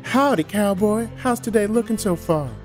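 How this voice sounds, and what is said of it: Imitates another person's voice. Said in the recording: “I don't sound like that. ... Perfect ... impersonation.”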